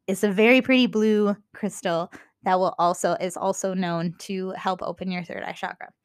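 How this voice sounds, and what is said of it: Minnesotan accent. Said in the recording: “my Minnesotan accent”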